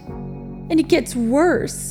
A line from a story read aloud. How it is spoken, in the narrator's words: Jin moaned